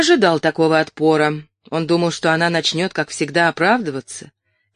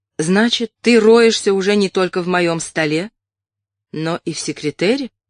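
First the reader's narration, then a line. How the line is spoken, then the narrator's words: Calm question. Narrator (Russian): спокойно спросила она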